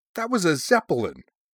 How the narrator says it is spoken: he said indignantly

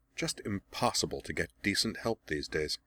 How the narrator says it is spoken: Azula muttered

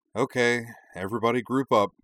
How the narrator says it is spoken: Korra gave a long, suffering sigh, said

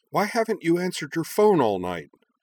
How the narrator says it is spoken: Hikaru snapped

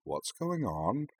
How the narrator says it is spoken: murmured

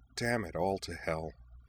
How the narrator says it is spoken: she muttered through her teeth

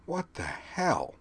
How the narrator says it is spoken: muttered

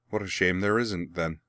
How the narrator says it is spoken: Azula replied, equally dryly

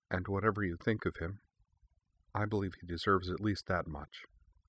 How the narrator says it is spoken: Sounding almost apologetic about it, she added quietly

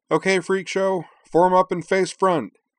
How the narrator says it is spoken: Gage yelled

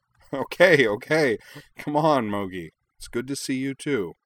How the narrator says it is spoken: laughed

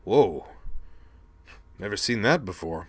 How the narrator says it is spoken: Rumble observed, in sympathy

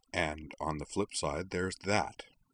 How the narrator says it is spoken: Kevran observed quietly to the others

